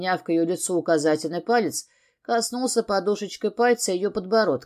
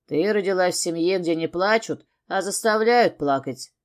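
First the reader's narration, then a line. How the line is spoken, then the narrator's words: Wry grunt. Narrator (Russian): хмыкнул я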